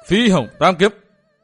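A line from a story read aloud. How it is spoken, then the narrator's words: Loud roar. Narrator (Vietnamese): Dương Viễn gầm to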